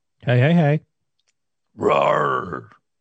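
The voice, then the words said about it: Lion mascot roaring impression. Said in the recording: “my Rory the Lion impression”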